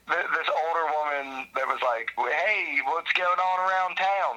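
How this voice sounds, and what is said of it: Put-on Western Pennsylvania accent. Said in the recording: “That's like my Western PA accent”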